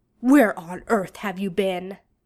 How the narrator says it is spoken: Arthur snaps

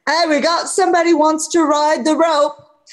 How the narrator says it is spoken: that barmaid would yell

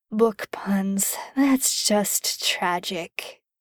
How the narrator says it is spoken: he muttered

